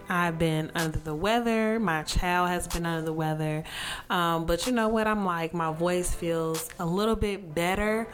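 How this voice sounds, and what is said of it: Hoarse, congested sick voice. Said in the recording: “my voice is totally different ... At first, it was a sore throat ... if you hear a little sniffle here and there”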